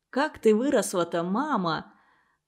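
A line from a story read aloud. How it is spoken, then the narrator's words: Whisper. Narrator (Russian): он шепнул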